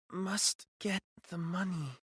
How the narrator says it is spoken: she mumbled

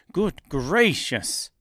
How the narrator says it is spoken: exclaimed the man

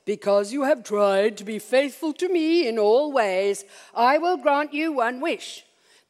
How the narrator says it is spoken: in a booming voice, God said

